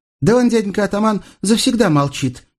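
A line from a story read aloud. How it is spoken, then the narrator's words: Joyful girl explaining. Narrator (Russian): девица поясняет радостно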